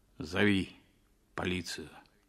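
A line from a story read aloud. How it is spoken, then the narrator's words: Muffled, hollow voice. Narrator (Russian): сказал он глухо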